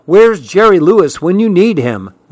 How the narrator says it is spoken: Betsy groaned

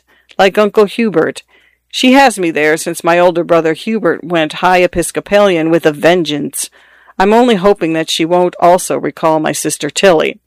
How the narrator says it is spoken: she says, her voice trembling just a bit

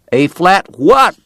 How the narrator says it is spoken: the cowboy shouted back

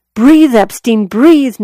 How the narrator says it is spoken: Noelle recalled him shouting

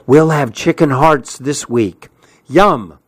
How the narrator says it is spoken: she bent forward and whispered

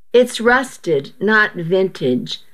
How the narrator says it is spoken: I chuckled

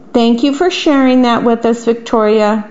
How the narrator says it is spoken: said Mrs

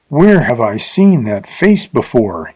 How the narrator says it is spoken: he gasped

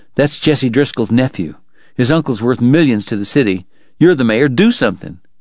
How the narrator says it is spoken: Bob Wright said, his voice low and urgent

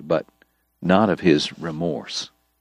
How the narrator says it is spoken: Doc told him quietly

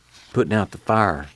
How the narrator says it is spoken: Muley whispered

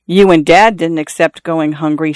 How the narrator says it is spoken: Xiao Shui said

